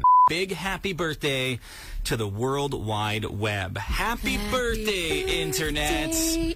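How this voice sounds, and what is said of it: Breathy sexy imitation of a starlet. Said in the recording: “That was your sexy voice, eh? ... That's my Marilyn Monroe. ... That's not bad. ... Yeah, that was awful.”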